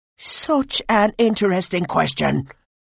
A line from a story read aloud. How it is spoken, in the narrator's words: barked Oisin